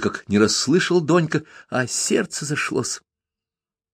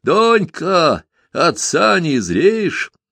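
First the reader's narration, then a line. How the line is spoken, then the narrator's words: Cheerful shout. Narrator (Russian): весело закричал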